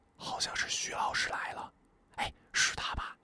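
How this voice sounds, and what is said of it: Quiet voice, trailing off softer. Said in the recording (Chinese): “他的声音是如此的小声，却一字不落的跳进了我的耳朵 ... 他越说越小声”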